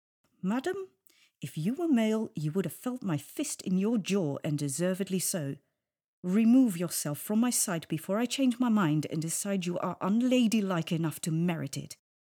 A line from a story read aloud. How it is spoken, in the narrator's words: said through clenched teeth